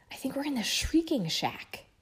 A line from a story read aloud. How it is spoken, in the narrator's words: she whispered